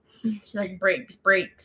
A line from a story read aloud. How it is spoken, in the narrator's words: I muttered to myself